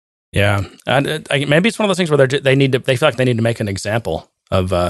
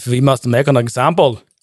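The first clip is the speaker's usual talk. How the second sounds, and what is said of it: Attempted German accent. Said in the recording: “Is that a German accent?”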